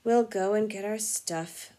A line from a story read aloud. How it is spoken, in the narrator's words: said Ron in a hopeless sort of voice